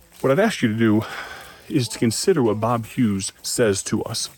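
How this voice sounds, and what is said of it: Slightly out of breath. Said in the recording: “I'm a little out of breath. We've been walking for just a little while here.”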